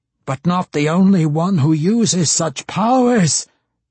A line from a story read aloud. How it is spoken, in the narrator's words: Matron Banri roared at her